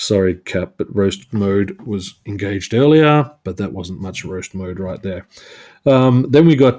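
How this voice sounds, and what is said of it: Usual voice. Nothing is said of it.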